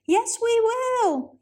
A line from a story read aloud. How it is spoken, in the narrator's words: yelled the toys